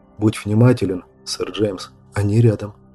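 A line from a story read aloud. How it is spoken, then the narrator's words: Strained mouthed whisper. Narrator (Russian): Брайан сдавленно прошептал одними губами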